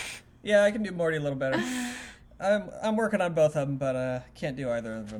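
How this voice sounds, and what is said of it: Usual voice. Nothing is said of it.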